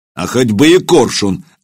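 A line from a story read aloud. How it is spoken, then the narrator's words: Barking. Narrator (Russian): рявкнул Илья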